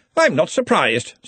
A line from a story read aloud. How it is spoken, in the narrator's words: said Ridcully brightly